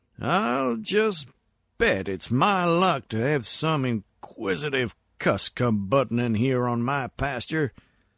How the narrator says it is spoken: he mumbled sleepily

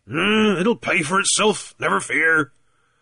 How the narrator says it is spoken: Captain Warfield was visibly cheered, though he merely grunted

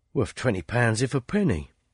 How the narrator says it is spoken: he muttered to himself

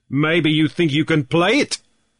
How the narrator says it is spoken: snapped Deacon

